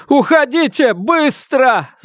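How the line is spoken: Trembling shout. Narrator (Russian): закричал судья, дрожа всем телом

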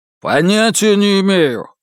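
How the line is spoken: Barking. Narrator (Russian): рявкнул Тай Вэй

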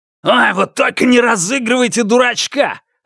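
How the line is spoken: Barked. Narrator (Russian): рявкнул Льян Жехао

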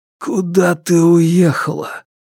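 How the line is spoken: Hoarse whisper. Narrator (Russian): хрипло прошептал Фанму

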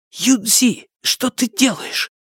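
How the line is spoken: Hissing. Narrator (Russian): прошипел он

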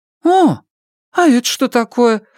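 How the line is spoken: Surprised exclamation. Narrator (Russian): воскликнула она, увидев сумки в его руках

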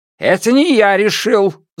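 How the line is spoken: Yelled. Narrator (Russian): заорал Лю Тяньшан

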